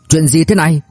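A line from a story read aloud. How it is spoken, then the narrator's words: Panicked loud shout. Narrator (Vietnamese): Từ Nguyên Lãng lông cuống che đầu mặt, quay sang hét lớn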